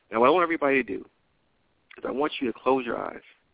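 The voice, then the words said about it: Mellow, calm, relaxed speaking voice. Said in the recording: “I want you just to mellow out, just to be calm, be cool ... you can hear the mellowness in my voice”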